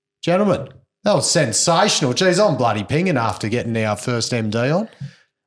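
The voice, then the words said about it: Broad Australian bogan accent. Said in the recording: “the excruciating bogan accent of the host”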